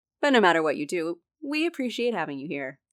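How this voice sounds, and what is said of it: Bright customer service voice. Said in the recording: “customer service voice”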